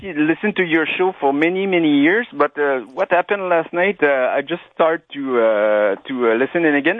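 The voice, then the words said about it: Quebec French accent. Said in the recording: “my French accent. I'm from Quebec.”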